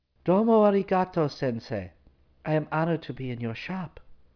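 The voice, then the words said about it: High-pitched countrified accent. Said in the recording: “spoke in a high-pitched, countrified accent”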